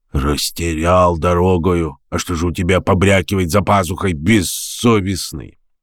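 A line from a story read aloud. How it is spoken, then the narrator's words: Grumbling. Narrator (Russian): Савельич проворчал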